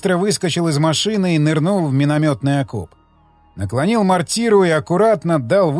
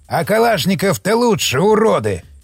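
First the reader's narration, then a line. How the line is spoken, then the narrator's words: Frustrated growl. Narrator (Russian): прорычал он, видя слабый эффект от его выстрела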